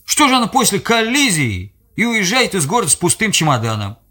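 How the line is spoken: Unusually loud in silence. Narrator (Russian): В тишине его слова прозвучали необычно громко

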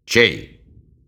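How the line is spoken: Dry question. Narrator (Russian): сухо спросил Джонас

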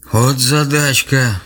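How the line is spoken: Playful sigh. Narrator (Russian): шутливо вздохнул дед

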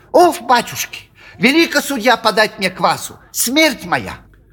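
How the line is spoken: Angry shrill tenor. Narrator (Russian): сердито тараща на него глаза, заговорил визгливым тенором

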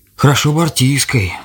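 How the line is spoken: Old man's sigh. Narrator (Russian): вздохнул дед

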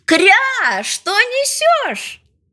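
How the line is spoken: Shouting. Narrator (Russian): мама крикнула

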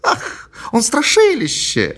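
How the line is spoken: Exclaimed. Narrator (Russian): воскликнула Мэри

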